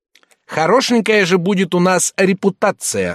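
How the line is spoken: Shouting. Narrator (Russian): закричал он

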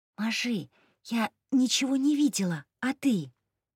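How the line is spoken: Whispered. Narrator (Russian): прошептала

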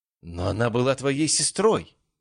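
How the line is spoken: Exclaiming. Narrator (Russian): воскликнула Хлоя

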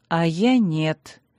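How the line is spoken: Tired, gloomy. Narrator (Russian): устало и мрачно прозвучал

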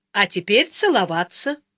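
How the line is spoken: Snorting. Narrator (Russian): Сашка снова хмыкнул

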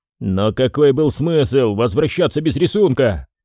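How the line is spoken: Exasperated exclamation. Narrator (Russian): в сердцах воскликнул Ди Джорджи

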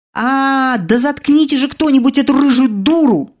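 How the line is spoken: Exasperated howl. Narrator (Russian): взвыла я

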